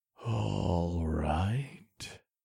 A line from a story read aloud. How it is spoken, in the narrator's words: I muttered under my breath